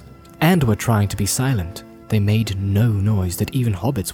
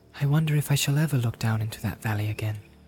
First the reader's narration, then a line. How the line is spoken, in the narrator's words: he said quietly